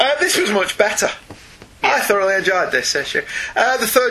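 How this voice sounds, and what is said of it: Usual voice. Nothing is said of it.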